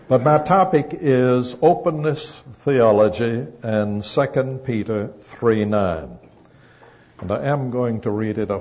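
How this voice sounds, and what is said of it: Southern American accent. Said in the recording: “enjoy my southern accent”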